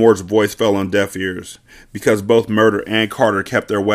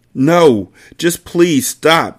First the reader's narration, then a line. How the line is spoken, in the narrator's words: she pleaded